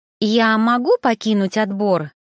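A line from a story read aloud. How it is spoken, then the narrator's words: Plain question. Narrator (Russian): спросила носатая блондинка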